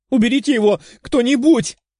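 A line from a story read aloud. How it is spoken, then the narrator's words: Panicked, tearful exclamation. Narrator (Russian): воскликнула Катя, которая из-за реакции девушки-дракона еще сильнее начала паниковать, а на уголках глаз появились слезинки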